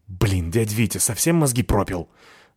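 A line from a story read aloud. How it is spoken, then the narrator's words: Angry hiss. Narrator (Russian): зашипел я на него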